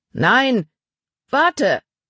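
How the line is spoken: Called after someone. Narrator (German): rief Paul ihm nach

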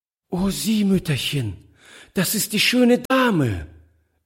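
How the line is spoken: Delighted exclamation. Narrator (German): rief sie voll Entzücken

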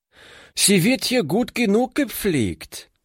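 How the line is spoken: Called out. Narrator (German): rief sie

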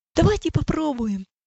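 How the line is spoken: Fervent exclamation. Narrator (Russian): с жаром воскликнул Иосиф

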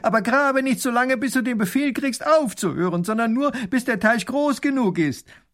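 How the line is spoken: Grand duke calling after. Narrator (German): Der Großherzog ruft ihm noch nach

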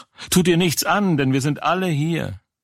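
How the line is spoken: Calling loudly. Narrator (German): Paulus aber rief laut und sprach

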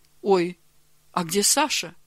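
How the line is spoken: Plain question. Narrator (Russian): спросила она

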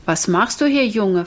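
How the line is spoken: Plain. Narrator (German): fragte er

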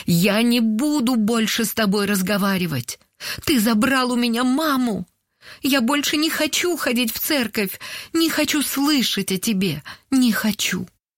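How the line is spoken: Tearful shouting. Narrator (Russian): Сквозь слезы она прокричала

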